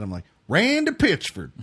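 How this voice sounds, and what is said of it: Put-on Maryland accent, Kentucky-like. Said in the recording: “A weird Maryland accent from where I kind of grew up ... Where everyone sounds like they're from Kentucky”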